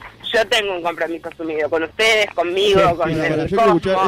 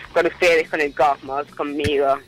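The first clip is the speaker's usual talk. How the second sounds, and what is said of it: Radio announcer voice. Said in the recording (Spanish): “esa voz de locutora que clavás”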